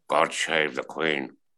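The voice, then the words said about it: Imitates another person's voice. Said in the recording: “my Sean Connery impression.”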